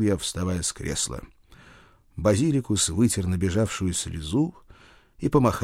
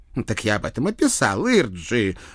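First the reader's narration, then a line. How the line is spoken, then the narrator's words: Offended outburst. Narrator (Russian): обиженно вскинулся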